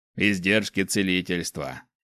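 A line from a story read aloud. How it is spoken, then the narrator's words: Smirking snort. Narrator (Russian): хмыкнул Снэк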